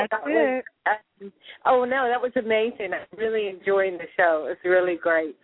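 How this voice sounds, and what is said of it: English accent. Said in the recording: “I noticed an accent with, excuse me, what accent do you have there? ... Well, I'm originally from England.”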